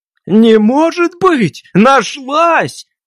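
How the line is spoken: Shouting. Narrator (Russian): Так же, как дядя Костя, закричал он

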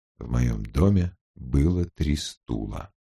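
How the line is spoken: Reading quietly. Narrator (Russian): тихим голосом прочел он

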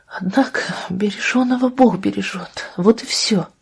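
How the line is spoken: Tearful whisper. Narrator (Russian): Со слезами на глазах прошептала Анна

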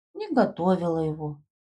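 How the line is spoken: Sad repetition. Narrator (Russian): печально повторила Дадошка

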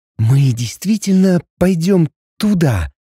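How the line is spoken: Frightened whisper. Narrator (Russian): испуганно прошептала я Максиму

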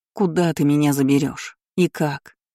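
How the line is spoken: Bitter sigh. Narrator (Russian): Горько выдохнула я

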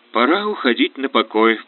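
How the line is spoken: Calm, sober inner thought. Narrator (Russian): подумал он, без привычного тоскливого ощущения потери, трезво и спокойно

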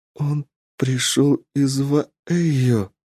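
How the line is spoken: Trembling voice. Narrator (Russian): дрогнувшим голосом сказала Варейна

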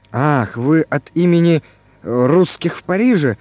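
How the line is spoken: Muttering. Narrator (Russian): забормотал Иван Иванович

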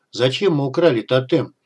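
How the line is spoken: Grumbling. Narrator (Russian): ворчал ежеминутный Игнат

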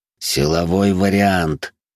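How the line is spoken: Hissing through teeth. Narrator (Russian): сквозь зубы прошипел я

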